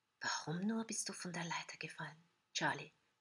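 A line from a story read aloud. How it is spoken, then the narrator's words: Soft whisper. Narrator (German): flüstert leise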